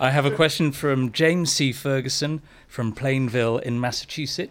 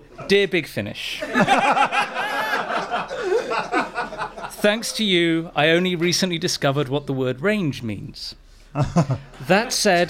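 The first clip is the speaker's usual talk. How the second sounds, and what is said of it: Put-on American accent. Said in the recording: “I am going to read it with my American accent.”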